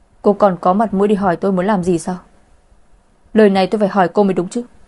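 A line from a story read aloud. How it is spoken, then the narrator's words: Furious through gritted teeth. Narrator (Vietnamese): cũng đang tức giận không thôi, anh ta nghiến răng nghiến lợi hỏi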